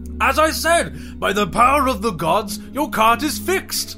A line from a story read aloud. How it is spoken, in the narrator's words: Simon exclaimed